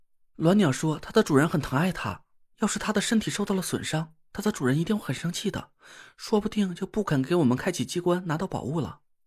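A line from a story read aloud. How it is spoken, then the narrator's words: Low whisper in ear. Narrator (Chinese): 田慧文在我耳边压低了声音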